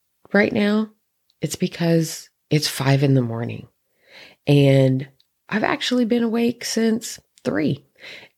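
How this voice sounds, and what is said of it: Slightly raspy voice. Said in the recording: “I sound a bit raspy”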